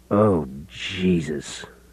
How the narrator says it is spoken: Gordon groaned

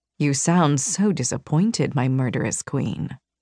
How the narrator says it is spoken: chuckled and leaned closer, his face only a few inches from mine, and murmured

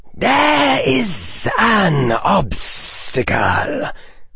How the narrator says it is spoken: hissed Voldemort

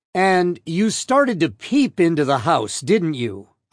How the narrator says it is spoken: I continued, my voice still raised

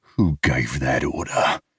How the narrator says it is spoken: I growl

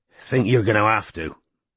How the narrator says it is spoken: he muttered ungraciously

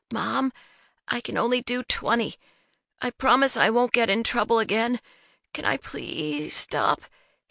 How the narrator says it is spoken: he says meekly

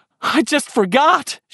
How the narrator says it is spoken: she cried

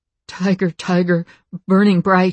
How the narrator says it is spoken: he stuttered, as he choked on his own blood

